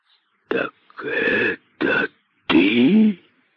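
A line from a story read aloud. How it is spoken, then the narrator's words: Python's hiss. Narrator (Russian): прошипел великий питон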